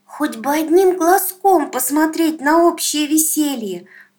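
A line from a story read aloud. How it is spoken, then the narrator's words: Sudden loud cry, child. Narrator (Russian): вдруг громко вскрикнула сиротка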